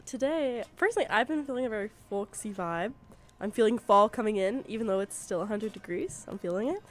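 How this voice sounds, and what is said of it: Congested, stuffy-nosed voice. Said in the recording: “I sound weird because I'm very congested right now.”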